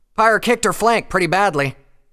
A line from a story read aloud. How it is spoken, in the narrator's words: Scarlet shouted back